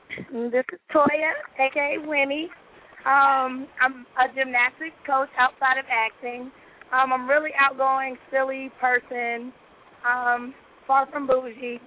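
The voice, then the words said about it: Hoarse, raspy voice. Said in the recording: “I'm a little hoarse right now, so if y'all wonder why my voice is a little raspy, I lost my voice.”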